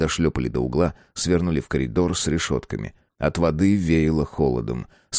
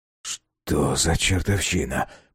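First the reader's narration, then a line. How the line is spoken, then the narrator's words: Muttering. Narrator (Russian): пробормотал Безил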